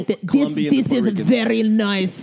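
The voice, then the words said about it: Put-on Russian accent. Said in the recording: “That's my Russian accent. ... it was very good Russian accent”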